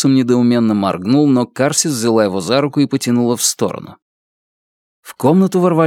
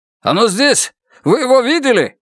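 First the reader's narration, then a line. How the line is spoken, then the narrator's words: Shouted. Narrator (Russian): выкрикнул один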